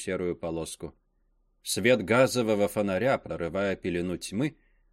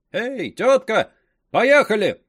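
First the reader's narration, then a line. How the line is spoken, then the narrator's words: Carter shouting. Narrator (Russian): крикнул один из возчиков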